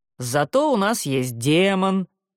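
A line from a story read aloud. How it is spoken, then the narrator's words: Deep booming voice. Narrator (Russian): пробасил Барниш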